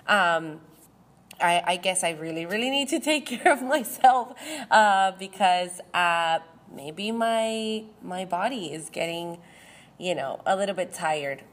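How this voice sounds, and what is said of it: Weird, sick-sounding voice. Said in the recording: “I'm still sick. So again, you're going to hear my weird voice. ... I'm so sorry again for my voice.”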